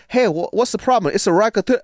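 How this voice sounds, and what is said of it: Imitated Chinese accent. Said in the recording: “he goes into this Chinese accent. ... that's really accurate. ... he did like this perfect Mandarin accent”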